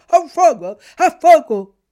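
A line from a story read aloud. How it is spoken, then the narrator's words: Frightened dog barking shouts. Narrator (Italian): il povero cane aveva gli occhi impauriti e stralunati e abbaiando gridava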